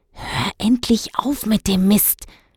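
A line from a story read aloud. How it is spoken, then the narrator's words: Hiss. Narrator (German): zischte Dennis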